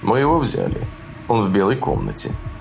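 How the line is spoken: Monotone, official tone. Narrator (Russian): монотонный, официальным тоном произносит

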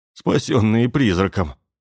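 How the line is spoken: Nervous laugh. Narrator (Russian): нервно рассмеялся Кент

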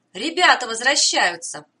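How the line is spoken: Glad exclamation. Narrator (Russian): обрадованно воскликнул Сальваторе

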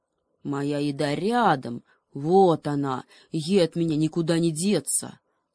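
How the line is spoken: Menacing growl. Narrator (Russian): Гепард постарался рычать как можно страшней

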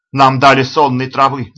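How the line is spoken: Alarmed shout of realization. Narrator (Russian): закричал Мафи, поняв причину своего беспамятства

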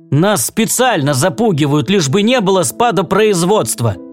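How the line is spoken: Shouting. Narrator (Russian): закричал он на жену и сына

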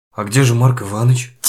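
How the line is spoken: Quiet question. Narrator (Russian): тихо спросил Дюковский

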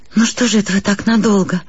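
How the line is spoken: Very sad. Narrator (Russian): сказала я ужасно грустно

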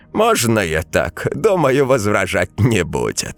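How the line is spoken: Man grunting. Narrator (Russian): хмыкнул мужик

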